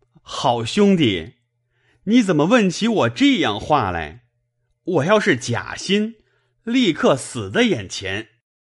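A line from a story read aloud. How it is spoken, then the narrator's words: Delighted laughing. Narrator (Chinese): 薛蟠听见这话，喜得心痒难挠，笑道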